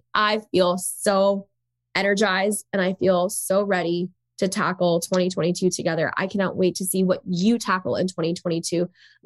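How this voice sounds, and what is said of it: Sick-sounding voice. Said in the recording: “I sound super sick, I sound worse than I'm actually feeling”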